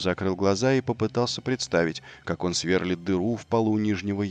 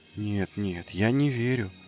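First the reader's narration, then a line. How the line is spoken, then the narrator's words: Breathless exhale. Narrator (Russian): выдохнул он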